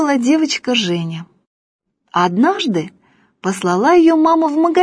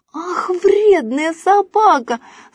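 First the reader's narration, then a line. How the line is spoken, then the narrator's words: Shouting. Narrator (Russian): закричала Женя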